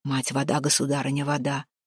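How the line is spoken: Whispering. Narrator (Russian): зашептал

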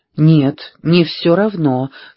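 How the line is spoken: Calm. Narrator (Russian): спокойно сказала Пэрис

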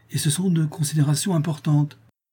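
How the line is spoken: Exclaimed. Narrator (French): s'écria Mme Norris

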